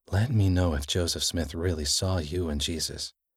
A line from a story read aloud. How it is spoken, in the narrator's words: Dinis said softly